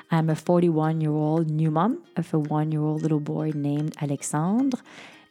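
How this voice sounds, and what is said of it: French Canadian accent. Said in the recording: “yes, I am French Canadian. This is where this little accent uh, comes from.”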